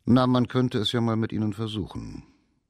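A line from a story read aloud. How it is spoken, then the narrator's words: Cold, after meaningful silence. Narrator (German): Seine Stimme klang kalt, als der Professor nach mehreren Sekunden bedeutungsvollen Schweigens sagte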